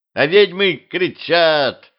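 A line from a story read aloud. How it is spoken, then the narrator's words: Boy's laughing voice. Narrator (Russian): Засмеялся незнакомый мальчишеский голос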